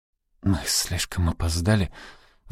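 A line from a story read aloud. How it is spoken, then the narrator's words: Young man sighing. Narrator (Russian): вздохнул молодой человек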